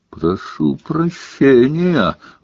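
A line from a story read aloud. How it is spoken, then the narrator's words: Furious roar. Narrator (Russian): взревел премьер-министр, чуть ли не топая ногами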